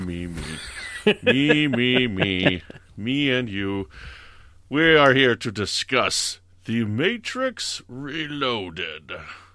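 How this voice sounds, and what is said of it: Hugo Weaving impression. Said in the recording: “that horrible Hugo Weaving impression”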